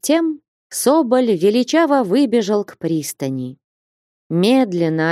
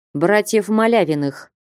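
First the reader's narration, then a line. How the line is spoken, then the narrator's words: Curt reply. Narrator (Russian): отрывисто ответил капитан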